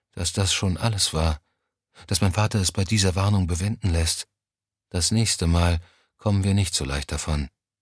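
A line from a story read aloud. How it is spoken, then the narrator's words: Quiet. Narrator (German): sagte sie schließlich leise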